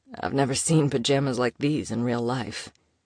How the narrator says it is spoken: he muttered

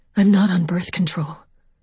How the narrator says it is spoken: My voice sounded as breathless as his when I said

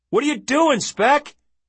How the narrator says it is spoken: he shouted

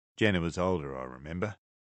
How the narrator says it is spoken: Nathan said

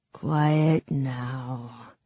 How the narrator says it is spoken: rasped the man with the knife

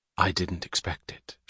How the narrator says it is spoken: she said softly to Daniger

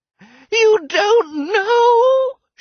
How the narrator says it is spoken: She cried

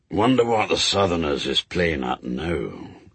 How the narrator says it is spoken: said Shadwell, under his breath

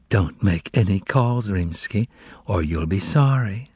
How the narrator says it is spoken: A soft, but at the same time insinuating and depraved, female voice whispered into the phone

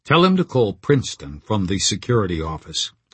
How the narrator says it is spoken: I said

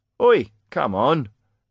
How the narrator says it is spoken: the jailer groaned

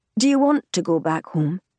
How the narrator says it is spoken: asks

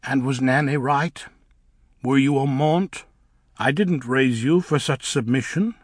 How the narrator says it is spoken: he said

